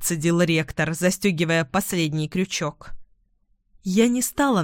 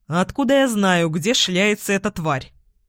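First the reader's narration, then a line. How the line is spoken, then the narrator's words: Snorted. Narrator (Russian): фыркнул Эдвин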